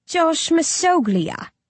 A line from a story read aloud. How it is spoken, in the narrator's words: I sneer